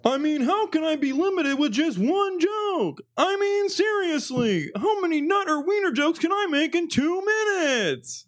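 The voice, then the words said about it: Imitated stand-up comedian voice. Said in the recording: “I got a big influence from Seinfeld on this one. So I'm gonna try to do the accent as well ... let me practice the accent”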